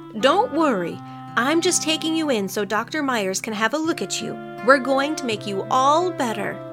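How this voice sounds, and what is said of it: Soothing, gentle voice. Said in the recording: “the woman said in a soothing voice.”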